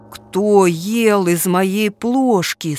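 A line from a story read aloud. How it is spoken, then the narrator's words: Deep low voice. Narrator (Russian): спросил медведь-папа своим низким голосом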